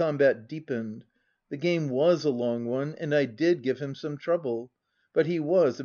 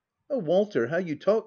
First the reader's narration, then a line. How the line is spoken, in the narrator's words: cried Millicent